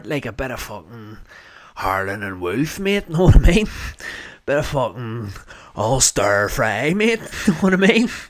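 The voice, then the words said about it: Put-on Belfast accent. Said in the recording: “I'm having to record this introduction here with a Belfast accent ... I can't be fucking speaking with a wee fucking North Down accent”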